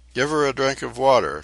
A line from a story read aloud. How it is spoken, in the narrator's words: Tefara commanded in a shaking voice